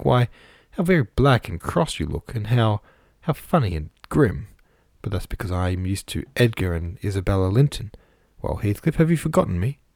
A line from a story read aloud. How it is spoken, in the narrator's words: burst into a laugh, exclaiming